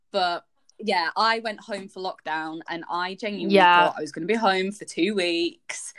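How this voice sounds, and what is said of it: Northern English Yorkshire accent. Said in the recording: “I'm from Leeds. I'm Northern. ... Not that you can tell by my accent. ... I am from God's own county, Yorkshire.”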